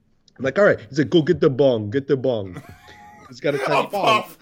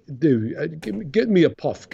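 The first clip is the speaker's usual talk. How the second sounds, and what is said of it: Put-on Polish accent. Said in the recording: “This is my dad's Polish accent.”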